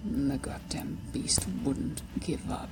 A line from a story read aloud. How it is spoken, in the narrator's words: rumbled deep in his chest